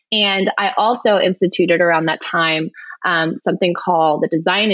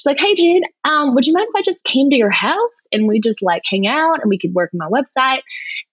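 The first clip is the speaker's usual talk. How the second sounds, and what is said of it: Poor imitation of Southern accent. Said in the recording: “she's from Virginia, has a very strong Southern accent ... that was not a good representation of your accent”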